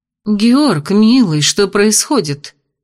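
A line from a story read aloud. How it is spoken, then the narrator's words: Worried female question. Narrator (Russian): спросила озабоченным тоном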